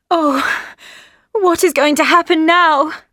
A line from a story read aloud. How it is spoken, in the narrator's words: She cried